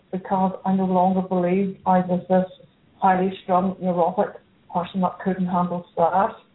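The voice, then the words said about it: Northern Irish accent. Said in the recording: “calling in from Belfast, Northern Ireland. If you can't tell by her accent”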